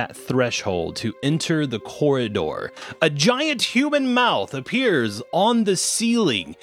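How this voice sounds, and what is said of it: Usual voice. Nothing is said of it.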